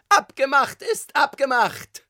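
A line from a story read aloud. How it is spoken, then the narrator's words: Shouting tenor voice. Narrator (German): schrie eine wohlbekannte Stimme, Tonlage Tenor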